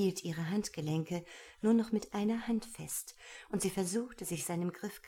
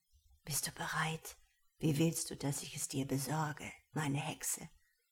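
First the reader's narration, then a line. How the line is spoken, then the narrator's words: Whispered into ear. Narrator (German): flüsterte er ihr ins Ohr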